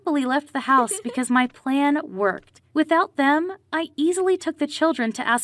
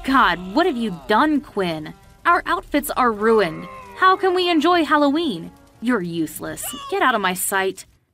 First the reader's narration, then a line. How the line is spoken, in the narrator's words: My mom angrily exclaimed